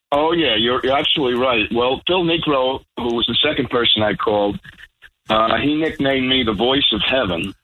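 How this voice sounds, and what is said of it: Thick New York accent. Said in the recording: “as thick a New York accent as mine”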